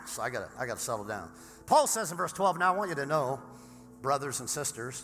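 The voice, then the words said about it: Hoarse, worn-out voice. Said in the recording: “I lost my voice in the first service. Just like ranting and screaming.”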